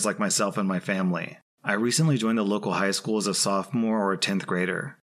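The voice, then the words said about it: Thick Irish accent. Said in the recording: “my effing accent ... Stereotypes of life in Ireland ... a thick accent”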